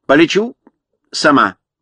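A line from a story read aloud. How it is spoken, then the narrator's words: Plain. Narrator (Russian): сказала она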